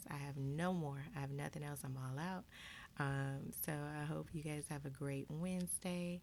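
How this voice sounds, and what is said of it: Raspy morning voice. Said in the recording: “Sorry if I'm a little raspy this morning.”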